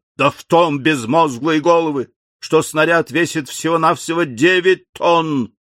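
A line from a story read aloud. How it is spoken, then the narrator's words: Fiery roar. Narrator (Russian): проревел пылкий секретарь пушечного клуба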